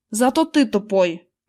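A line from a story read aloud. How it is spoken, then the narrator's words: Snapped. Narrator (Russian): Огрызнулся он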